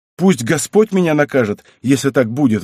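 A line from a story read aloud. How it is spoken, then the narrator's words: Exclamation. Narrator (Russian): воскликнул Сбышка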